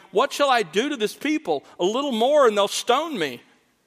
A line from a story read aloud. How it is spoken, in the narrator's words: Moses cried out to the Lord, saying